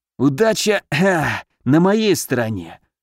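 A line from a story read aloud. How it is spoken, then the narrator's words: Wheezing. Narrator (Russian): просипел Алёша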